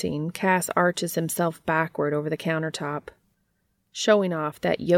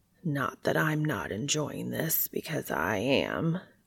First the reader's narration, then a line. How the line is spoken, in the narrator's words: Cass says in a husky voice